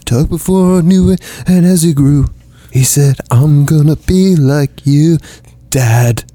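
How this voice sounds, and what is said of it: Sings in an angsty folk-singer voice. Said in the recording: “I don't know what voice that was. It was like your angsty folk singer impersonation.”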